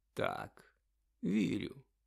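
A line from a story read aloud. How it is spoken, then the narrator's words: Calm. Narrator (Ukrainian): спокійно підтвердив Дамблдор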